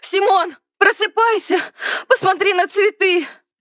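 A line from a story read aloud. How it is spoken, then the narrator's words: Shout. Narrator (Russian): закричала она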